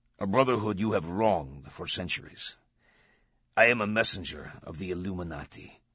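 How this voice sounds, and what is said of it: Cold, arrogant voice with foreign accent. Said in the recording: “metallic and cold, laced with arrogance ... the accent. Middle Eastern, perhaps? ... in an alien cadence”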